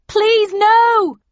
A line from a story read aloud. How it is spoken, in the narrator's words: shouted, my eyes full of tears